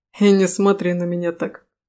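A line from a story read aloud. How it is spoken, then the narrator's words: Snort. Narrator (Russian): хмыкнул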